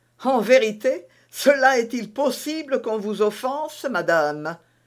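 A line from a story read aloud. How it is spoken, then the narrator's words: Laughing. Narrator (French): dit en riant Athos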